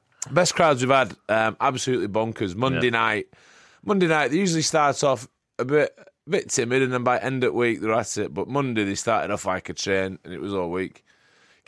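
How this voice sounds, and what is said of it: Hoarse voice. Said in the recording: “I'm a bit hoarse”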